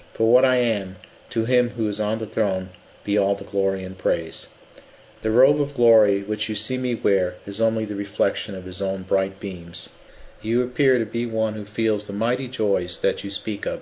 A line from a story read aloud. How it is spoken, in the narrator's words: she replied